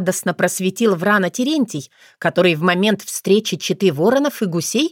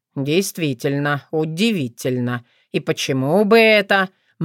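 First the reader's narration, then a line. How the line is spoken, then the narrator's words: Gloomy mutter. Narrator (Russian): мрачно пробормотал Вран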